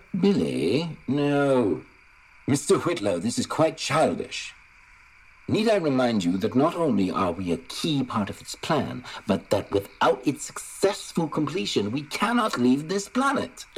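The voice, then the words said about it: Fake British accent. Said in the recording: “a fake British accent”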